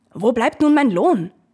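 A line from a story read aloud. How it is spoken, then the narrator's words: Old man calling. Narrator (German): der Alte rief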